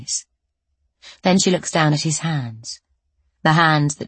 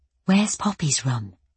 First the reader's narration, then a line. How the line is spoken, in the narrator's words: She whispers